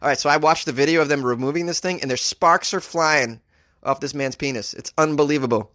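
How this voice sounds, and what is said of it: Usual voice. Nothing is said of it.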